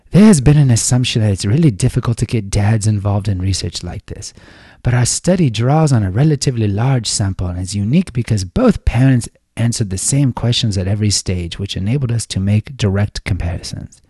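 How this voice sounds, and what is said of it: Put-on accent. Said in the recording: “that's the last time I'm doing the accent.”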